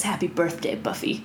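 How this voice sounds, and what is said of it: Poor imitation of a character's voice. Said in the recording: “That was a terrible Drusilla impression”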